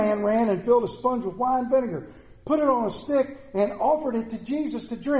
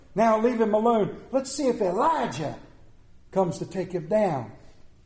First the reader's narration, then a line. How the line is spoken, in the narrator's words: he said